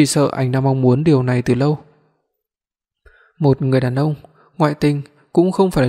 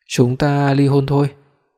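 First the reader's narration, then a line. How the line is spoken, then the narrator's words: Hoarse voice. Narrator (Vietnamese): Giọng tôi khàn khàn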